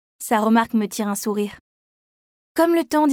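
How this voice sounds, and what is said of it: Usual voice. Nothing is said of it.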